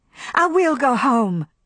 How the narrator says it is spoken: she cried

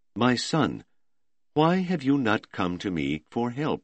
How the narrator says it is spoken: a very old cleric came unsteadily forward to say, in a weak voice

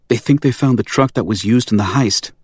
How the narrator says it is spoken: she said, her voice filled with urgency

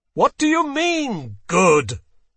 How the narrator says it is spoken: Terrier bellowed at her

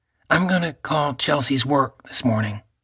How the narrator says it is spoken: Cage said

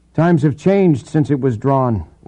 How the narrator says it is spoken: Lambert said, his tone sharpened

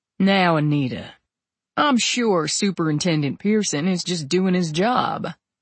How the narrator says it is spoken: Edward said in his drawling Ted voice, which managed to be pleasant and theatrical

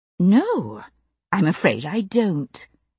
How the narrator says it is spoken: I said, as calmly as possible

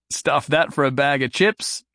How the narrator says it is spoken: Jason said, laughing

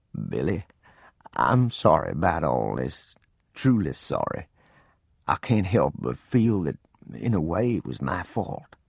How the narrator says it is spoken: In a low voice that quivered as he talked, he said

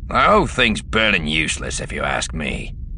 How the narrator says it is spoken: the first growled

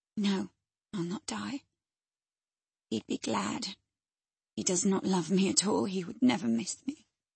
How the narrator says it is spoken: her murmur

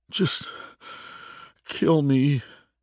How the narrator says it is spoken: he pleaded

